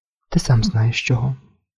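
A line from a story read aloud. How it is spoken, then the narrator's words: Quiet. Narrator (Ukrainian): нарешті тихо мовила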